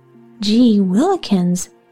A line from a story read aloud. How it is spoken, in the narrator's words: Dickie exclaimed